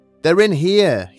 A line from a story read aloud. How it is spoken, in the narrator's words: shouted to his wife